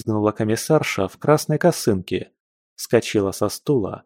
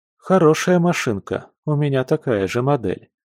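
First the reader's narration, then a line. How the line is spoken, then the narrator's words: Told calmly, by a chieftain. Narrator (Russian): спокойно поведал атаман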